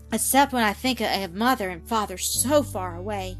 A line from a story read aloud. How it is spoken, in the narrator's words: she added with a sigh, the tears starting to her eyes for an instant